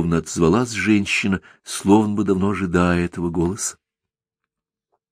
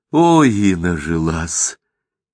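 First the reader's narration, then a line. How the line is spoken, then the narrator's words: Happy breathy exhale. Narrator (Russian): счастливо выдохнула Тайка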